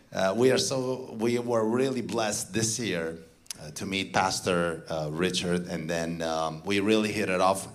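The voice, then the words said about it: Romanian-accented English. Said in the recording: “I hope you understand my accent. You know, I come from Transylvania.”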